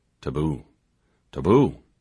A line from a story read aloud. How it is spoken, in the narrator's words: murmured